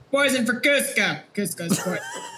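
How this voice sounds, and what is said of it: Put-on character accent. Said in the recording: “I can do the accent. I can do the accent... I had to get in character.”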